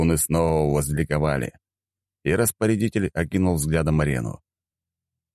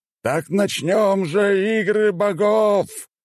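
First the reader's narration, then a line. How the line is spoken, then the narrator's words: Man exclaiming. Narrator (Russian): воскликнул мужчина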